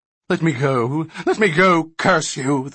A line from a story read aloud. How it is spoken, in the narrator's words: the thrashing gnome cried venomously